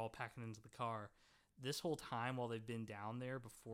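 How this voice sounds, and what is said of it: Usual voice. Nothing is said of it.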